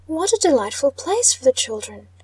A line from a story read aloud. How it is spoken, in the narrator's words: exclaimed